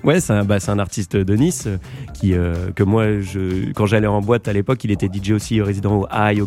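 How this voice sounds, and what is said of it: A nice regional French accent. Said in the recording (French): “Très bel accent ... je savais pas si tu parlais mon accent ou du morceau. Des deux.”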